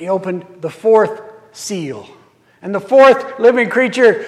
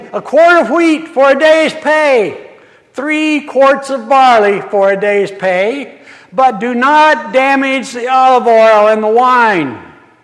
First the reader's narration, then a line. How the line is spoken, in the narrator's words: a voice that came from the midst of the four living creatures that called out, saying